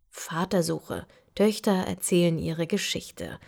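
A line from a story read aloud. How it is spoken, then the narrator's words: Muttering to himself. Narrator (German): murmelt vor sich hin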